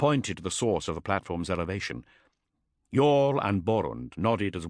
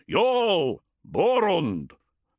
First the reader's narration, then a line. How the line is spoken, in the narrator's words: bellowed the Space Wolf captain